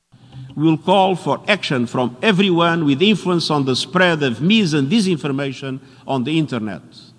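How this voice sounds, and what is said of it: Portuguese accent, Dracula-like. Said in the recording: “European Portuguese guy, but that accent, he just sounds exactly like Dracula”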